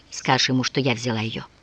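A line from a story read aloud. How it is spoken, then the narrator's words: Whispering. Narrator (Russian): прошептала Софья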